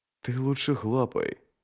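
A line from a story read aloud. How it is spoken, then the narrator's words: Whisper. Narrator (Russian): прошептал Джот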